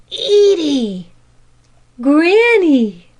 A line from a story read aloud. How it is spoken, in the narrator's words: was all that either could gasp